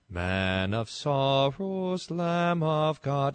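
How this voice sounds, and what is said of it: Singing in put-on Australian accent. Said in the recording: “Australian accent.”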